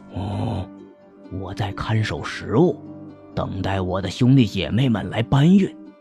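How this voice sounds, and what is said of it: Quiet, hushed speech. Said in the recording (Chinese): “小声说”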